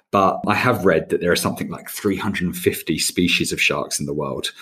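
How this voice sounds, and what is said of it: English accent. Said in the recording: “as you can tell from my accent, I'm an Englishman”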